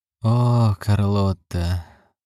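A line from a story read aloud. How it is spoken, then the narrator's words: Sigh. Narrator (Russian): вздохнул Джерри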